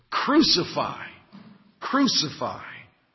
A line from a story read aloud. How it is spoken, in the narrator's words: they cried out, saying